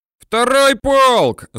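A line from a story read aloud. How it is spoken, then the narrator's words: Loud bellow. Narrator (Russian): заорал казак так, что собравшиеся у стеллажей солдаты и казаки его услышали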